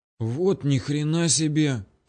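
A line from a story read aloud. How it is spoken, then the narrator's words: Breathless exclamation. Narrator (Russian): только и выдохнул я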